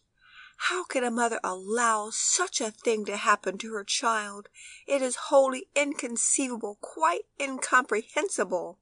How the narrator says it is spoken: the lady from Geneva, who took an unusual interest in poor Tony's fate, exclaimed in great excitement

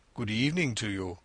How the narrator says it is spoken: he said gravely

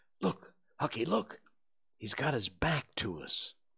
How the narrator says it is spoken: Tom choked off and whispered

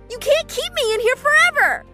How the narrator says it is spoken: I shouted at him

